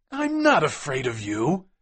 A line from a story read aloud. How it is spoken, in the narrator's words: cried McMurdo